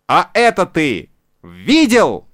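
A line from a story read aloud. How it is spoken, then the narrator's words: Shout into ear. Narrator (Russian): крикнул ему в ухо Буратино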